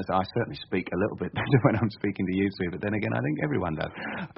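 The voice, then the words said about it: Estuary English accent. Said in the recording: “a son who speaks with an estuary accent ... my accent is entirely real ... I was born in southeast London”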